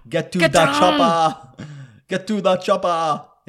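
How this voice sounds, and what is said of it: Bad impression of action-movie star. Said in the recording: “I do a very bad impersonation ... that's Arnold Schwarzenegger”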